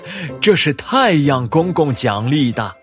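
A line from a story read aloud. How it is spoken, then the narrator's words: Smiling old man. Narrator (Chinese): 葫芦爷爷笑眯眯的说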